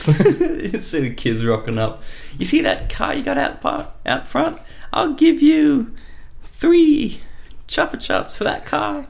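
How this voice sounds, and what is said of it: Kid voice sounding like old lady. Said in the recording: “You sound like an old lady, not a kid. ... not like an old lady. That's the wrong end of the spectrum.”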